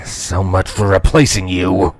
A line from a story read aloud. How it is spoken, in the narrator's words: the changeling muttered quietly